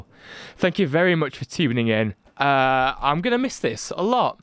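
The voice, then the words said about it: Emotional voice. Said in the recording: “I'm getting a bit emotional.”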